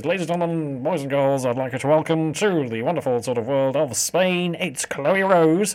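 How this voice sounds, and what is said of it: Nasal holiday-camp MC announcer voice. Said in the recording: “I'll give you a sort of nasally accent there because I think most MCs when they're actually in holiday camp”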